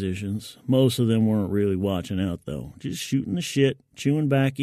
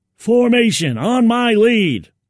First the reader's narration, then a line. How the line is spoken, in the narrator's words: he yelled